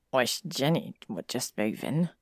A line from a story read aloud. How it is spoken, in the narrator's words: Harry muttered